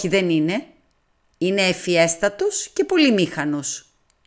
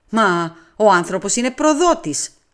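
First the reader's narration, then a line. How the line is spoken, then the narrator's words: Exclamation. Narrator (Greek): αναφώνησα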